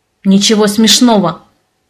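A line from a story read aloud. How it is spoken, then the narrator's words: Growling. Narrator (Russian): Снова рыкнул Леони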